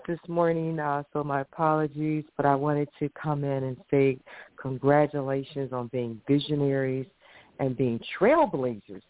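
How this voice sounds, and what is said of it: Hoarse voice. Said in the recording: “I'm a little hoarse”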